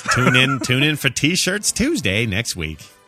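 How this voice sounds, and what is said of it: Put-on accent. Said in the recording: “I don't know why that accent's happening.”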